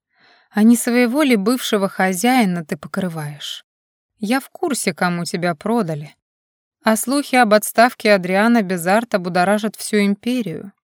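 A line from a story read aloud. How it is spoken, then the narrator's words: Insinuating inquiry. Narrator (Russian): вкрадчиво поинтересовался он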